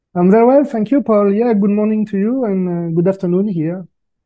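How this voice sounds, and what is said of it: French-accented English. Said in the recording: “if people were listening to your accent, they would think you're in France or somewhere in Europe ... Yes, I'm French. My accent is there, definitely”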